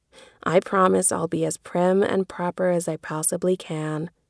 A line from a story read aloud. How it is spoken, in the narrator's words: Jo sighed